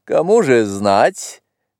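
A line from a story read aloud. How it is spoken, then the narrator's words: Laughing. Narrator (Russian): засмеялся Дарзан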